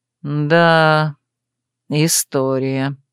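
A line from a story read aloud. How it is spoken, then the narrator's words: Drawling. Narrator (Russian): протянул Мерлин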